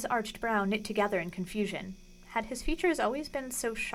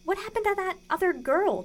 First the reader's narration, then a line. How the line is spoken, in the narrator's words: demanded Lucy indignantly